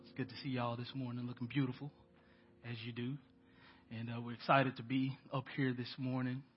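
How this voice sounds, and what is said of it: Nasal, congested voice. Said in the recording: “My sinuses have been giving me the blues for about 2 weeks. So excuse the sound of my voice. Y'all can probably hear that ... I sound very nasally. ... I don't normally sound like this.”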